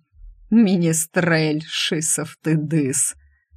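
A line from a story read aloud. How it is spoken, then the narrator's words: Relieved laughter. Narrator (Russian): Стриж облегченно рассмеялся вместе с ним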